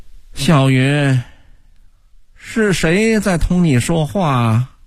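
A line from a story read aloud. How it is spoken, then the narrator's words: Mother's heavy sighing question. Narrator (Chinese): 唐小云母亲的一声沉重呻吟，跟着叹息一般的问道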